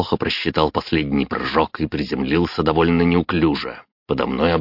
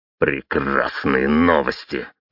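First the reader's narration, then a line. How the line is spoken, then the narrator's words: Growled. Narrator (Russian): рыкнул я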